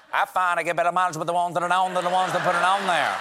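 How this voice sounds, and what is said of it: Strong Southern US accent. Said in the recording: “I'm from South Carolina, and I love the accent. It's beautiful, but the show auto tunes my accent out for a broader national appeal ... turn off the Yankee filter”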